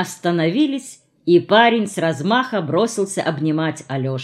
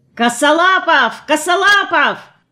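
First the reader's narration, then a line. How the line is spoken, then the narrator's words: Young man yelling. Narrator (Russian): какой-то парень и вопил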